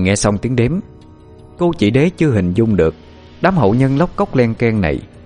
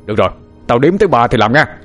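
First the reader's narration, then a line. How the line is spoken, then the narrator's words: Shout. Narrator (Vietnamese): Quang quát lên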